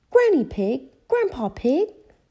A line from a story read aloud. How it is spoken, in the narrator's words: cried Peppa